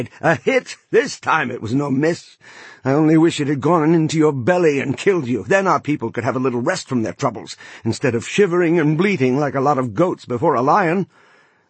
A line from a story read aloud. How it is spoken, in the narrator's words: laughed aloud with glee as he cried